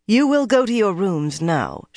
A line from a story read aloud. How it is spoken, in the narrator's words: said coolly, but her voice was all that was cool